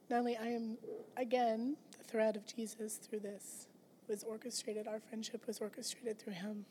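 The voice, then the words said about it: Hoarse, fading sick voice. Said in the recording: “Sorry, I'm losing my voice. I've been sick.”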